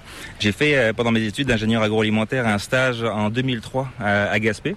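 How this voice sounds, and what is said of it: Slight accent, not Québécois. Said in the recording (French): “tu as une petite pointe d'accent qui est assez difficile de deviner... c'est pas l'accent québécois”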